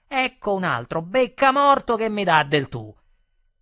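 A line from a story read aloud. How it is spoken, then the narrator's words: Shouted in someone's face. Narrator (Italian): mi gridò in faccia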